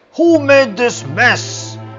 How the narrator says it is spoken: shouted Farmer Bahram angrily

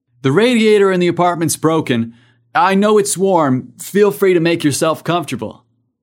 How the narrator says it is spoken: From the other room, Dax called out

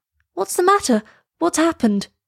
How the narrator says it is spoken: cried Elsa

